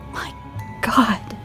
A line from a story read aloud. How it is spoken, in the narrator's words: Detective Newton muttered